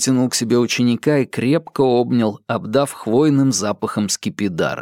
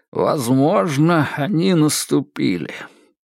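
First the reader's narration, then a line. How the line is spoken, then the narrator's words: Sighing. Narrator (Russian): вздохнул Грегор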